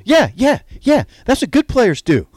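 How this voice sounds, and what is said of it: Imitation of the co-host. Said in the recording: “going to do an imitation of you there... I don't think that was a very good one.”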